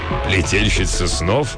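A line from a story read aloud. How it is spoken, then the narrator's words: Old man laughing. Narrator (Russian): Старый рыцарь засмеялся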